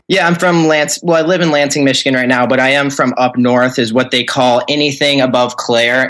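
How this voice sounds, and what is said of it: Slight Northern Midwest American accent. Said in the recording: “You have a little bit of a, I'm going to say Northern Midwest accent.”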